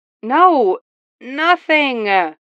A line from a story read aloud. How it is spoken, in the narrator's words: Barbara groaned before pausing